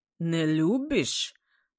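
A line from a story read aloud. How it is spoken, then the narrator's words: Ringing guttural voice. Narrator (Russian): своим гортанным голосом прозвенел Саврадзе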